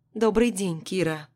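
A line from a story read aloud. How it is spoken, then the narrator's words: Calm. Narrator (Russian): спокойно произносит она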